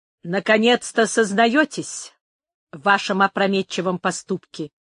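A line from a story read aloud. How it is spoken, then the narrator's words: Icy. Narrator (Russian): продолжала Бланка ледяным тоном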